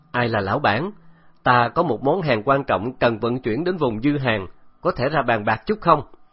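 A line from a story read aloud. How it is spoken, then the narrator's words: Loud voice. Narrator (Vietnamese): Từ Tử Lăng lớn tiếng nói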